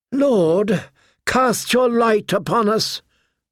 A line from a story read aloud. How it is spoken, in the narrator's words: Melisandre called out